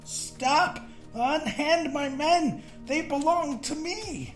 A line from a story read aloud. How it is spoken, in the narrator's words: the sweaty fat man screamed